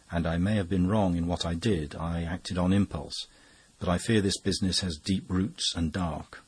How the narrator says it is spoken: answered Brown in a rather troubled voice

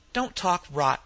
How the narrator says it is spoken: Mequillen said sharply

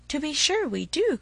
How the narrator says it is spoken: cried his father

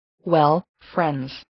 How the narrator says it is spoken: he said

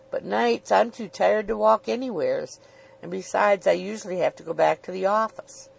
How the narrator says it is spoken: Luke croaked

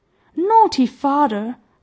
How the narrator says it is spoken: cried Peony, stamping his foot

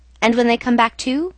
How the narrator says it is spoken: I asked

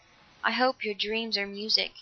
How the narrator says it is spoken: she said softly

